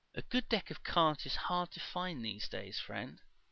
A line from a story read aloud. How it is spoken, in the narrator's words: said Sersera soothingly